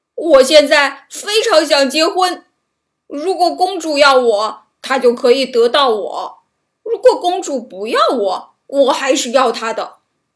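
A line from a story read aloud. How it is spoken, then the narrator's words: Loud. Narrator (Chinese): 笨蛋汉斯大声说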